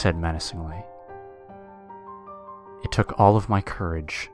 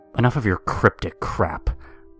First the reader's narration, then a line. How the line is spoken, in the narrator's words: I yelled